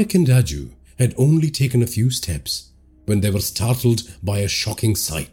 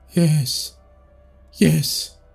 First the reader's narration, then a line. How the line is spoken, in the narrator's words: Raju said in a wavering voice